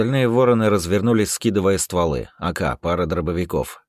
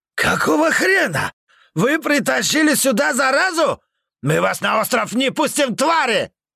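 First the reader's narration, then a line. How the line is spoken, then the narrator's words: Leader yelling. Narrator (Russian): Заорал главарь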